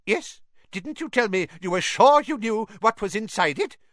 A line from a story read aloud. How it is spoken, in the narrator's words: piped up Professor Flitwick